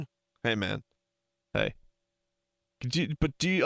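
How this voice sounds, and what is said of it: Usual voice. Nothing is said of it.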